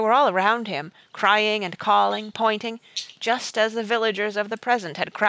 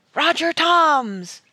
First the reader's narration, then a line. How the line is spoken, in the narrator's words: came a great triumphant shout